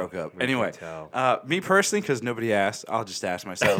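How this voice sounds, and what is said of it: Usual voice. Nothing is said of it.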